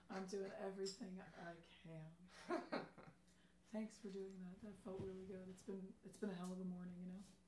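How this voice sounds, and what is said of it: Hoarse, nearly lost voice. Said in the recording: “sorry about the voice ... lost her voice last night”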